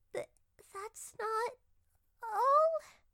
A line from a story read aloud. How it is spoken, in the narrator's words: Peach groaned